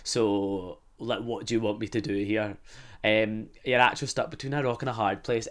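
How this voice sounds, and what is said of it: Scottish accent. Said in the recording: “I really don't mind when my friends made fun of my accent ... they just keep mocking your accent ... Oh, from Scotland, yeah.”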